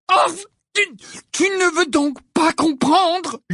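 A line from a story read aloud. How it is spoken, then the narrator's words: Shouting. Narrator (French): lui cria Harry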